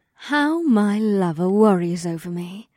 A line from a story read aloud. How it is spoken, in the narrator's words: Ibsith purred